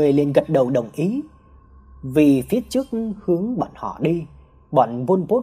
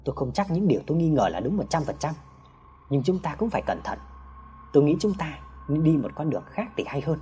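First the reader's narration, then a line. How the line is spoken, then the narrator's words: Soft continuing speech. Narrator (Vietnamese): Hào khẽ nói tiếp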